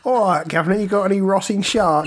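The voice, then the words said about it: Put-on Cockney accent. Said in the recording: “what if an Icelandic person was Cockney?”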